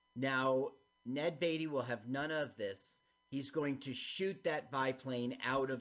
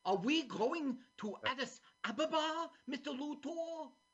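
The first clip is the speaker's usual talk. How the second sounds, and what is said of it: Imitates another person's voice. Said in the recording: “You sound like him ... Here's my impression.”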